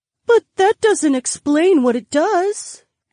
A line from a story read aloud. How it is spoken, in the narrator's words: the beautiful woman whimpered